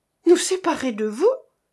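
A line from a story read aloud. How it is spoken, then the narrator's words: Exclaiming. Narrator (French): s'écria Jeanneton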